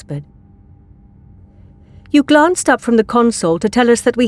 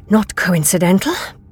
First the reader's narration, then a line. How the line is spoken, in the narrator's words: the doctor muttered